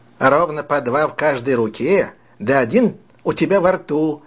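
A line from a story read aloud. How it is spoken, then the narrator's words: Plain. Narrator (Russian): ответил Джек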